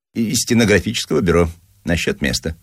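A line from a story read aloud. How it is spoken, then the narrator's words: Plain. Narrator (Russian): сказал питчер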